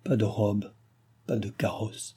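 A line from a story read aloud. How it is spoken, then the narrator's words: Dying woman's murmur. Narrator (French): murmurait la comtesse mourante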